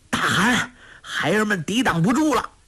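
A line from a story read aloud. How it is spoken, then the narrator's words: Breathless shout. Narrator (Chinese): 哲勒米奔上土山叫道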